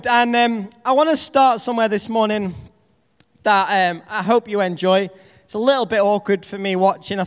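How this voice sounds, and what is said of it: Northern English accent. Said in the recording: “my Northern English accent”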